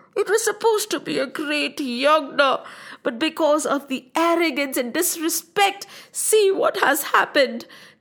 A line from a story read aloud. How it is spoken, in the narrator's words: cried Sati's mother